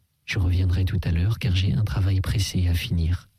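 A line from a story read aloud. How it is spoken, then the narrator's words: Plain. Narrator (French): dit-il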